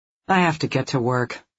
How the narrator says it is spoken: she muttered

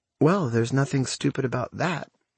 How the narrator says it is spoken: she says, in a detached adjacent tone

